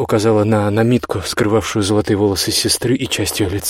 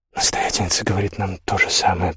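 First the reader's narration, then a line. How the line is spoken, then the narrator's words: Whisper. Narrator (Russian): прошептала Лотта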